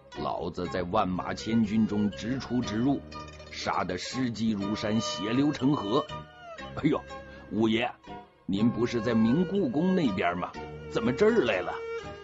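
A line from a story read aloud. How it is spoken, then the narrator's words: Laughing retort. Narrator (Chinese): 随和德一头走一头笑着回骂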